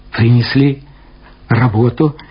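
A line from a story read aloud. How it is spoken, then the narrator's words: Joyful voice. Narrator (Russian): сказал он своим обычным при встречах с Савиным радостным голосом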